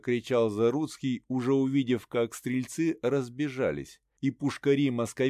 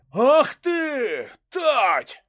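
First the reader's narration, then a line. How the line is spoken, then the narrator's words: Roaring. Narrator (Russian): взревел Шило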